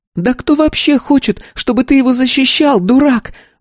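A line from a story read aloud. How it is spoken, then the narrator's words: Shrieked. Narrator (Russian): взвизгнула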